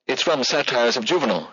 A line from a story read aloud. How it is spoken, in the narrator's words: she exclaimed